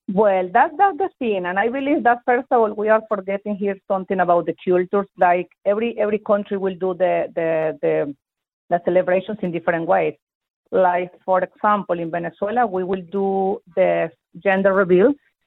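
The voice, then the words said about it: Venezuelan accent. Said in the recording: “where is your accent from? ... I'm from Venezuela.”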